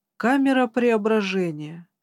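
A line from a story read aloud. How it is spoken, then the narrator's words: Tired reply. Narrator (Russian): устало ответил Недо Франкенштейн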